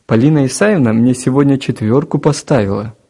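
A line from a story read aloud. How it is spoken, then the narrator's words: Cheerful announcement. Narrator (Russian): радостно сообщил Гена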